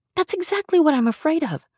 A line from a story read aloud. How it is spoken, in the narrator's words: I exclaimed